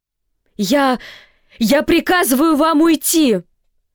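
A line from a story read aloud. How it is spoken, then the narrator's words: Shouting, voice cracking. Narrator (Russian): срывая голос, крикнула Сьюзен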